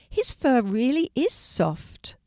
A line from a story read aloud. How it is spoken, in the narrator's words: exclaimed Penny